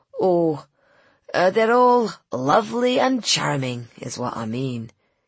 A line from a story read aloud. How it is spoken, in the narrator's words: he said, colouring thickly